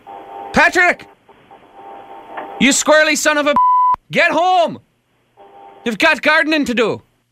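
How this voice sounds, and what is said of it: Loud angry yelling like a dad. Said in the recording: “I'll yell his name. He knows the tone of voice. I'm just like his dad when I'm mad.”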